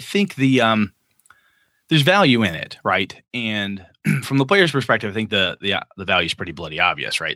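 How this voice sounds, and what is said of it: Cracking, strained voice. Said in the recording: “my voice is cracking bad here”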